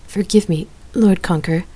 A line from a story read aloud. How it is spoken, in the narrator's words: Scylla stammered